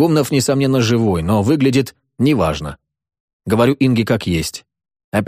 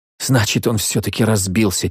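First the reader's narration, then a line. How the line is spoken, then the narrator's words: Quiet. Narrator (Russian): тихо говорит она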